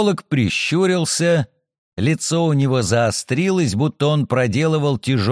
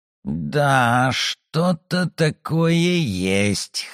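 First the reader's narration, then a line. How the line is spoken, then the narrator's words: Hoarse. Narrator (Russian): хрипло ответил он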